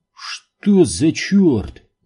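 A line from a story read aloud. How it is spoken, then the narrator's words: Exclaiming. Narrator (Russian): воскликнул он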